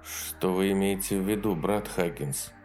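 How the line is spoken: Quiet question. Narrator (Russian): тихо поинтересовался меч Саймонс

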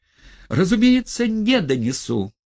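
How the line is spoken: Louder shout. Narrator (Russian): крикнул двое сильнее Хромой

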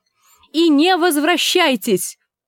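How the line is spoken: Woman shouting after them. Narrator (Russian): крикнула вдогонку Гленда, когда они исчезли во мраке

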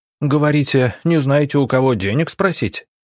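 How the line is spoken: Sudden guffaw. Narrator (Russian): неожиданно хохотнул Василий

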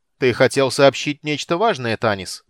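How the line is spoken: Loud question. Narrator (Russian): громко спросил

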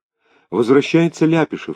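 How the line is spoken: Whispered. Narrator (Russian): шепнула Клавочка

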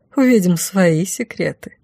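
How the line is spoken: Gleeful purr. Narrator (Russian): промурлыкала я, откровенно наслаждаясь ситуацией

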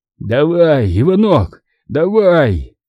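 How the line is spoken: Hoarse wheeze. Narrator (Russian): хрипел Васинцев

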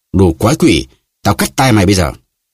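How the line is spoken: Shout. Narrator (Vietnamese): Athos quát

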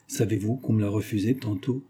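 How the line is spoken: Half-voiced. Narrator (French): dit-il à mi-voix

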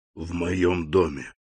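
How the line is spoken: Whisper. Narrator (Russian): прошептал он

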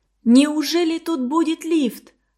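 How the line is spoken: Joyful shout. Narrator (Russian): радостно закричала

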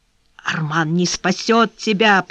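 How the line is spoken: Whisper. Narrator (Russian): прошептал Андреа

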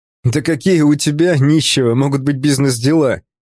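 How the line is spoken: Laughing. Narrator (Russian): Он рассмеялся

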